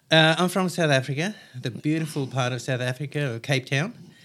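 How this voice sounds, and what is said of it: Distinct South African accent. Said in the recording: “you've got a distinct accent there, mate”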